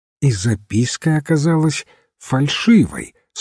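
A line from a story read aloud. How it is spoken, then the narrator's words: Plain. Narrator (Russian): спросил отец Браун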